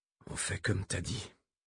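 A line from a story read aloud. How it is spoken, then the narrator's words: Murmur. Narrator (French): murmura-t-il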